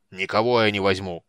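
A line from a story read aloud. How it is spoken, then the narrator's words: Growled. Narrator (Russian): прорычал тот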